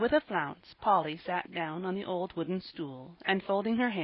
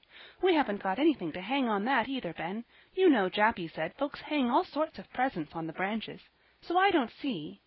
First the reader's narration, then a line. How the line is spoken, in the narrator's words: she continued impatiently